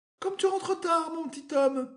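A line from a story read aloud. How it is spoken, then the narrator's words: Exclaimed. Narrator (French): s'écria-t-elle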